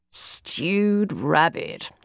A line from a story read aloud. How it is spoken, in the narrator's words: he groaned, still shaking his head, not so much in negation as inability to believe